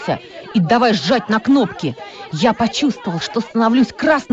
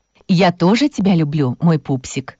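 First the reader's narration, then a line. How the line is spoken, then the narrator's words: Tender mother. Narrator (Russian): ласково ответила мама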